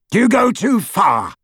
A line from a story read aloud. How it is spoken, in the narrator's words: shouted Scrimgeour